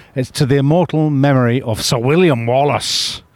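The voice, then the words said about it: Mel Gibson-style Scottish accent. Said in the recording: “That was a very good Scottish accent... That was basically Mel Gibson's Scottish accent.”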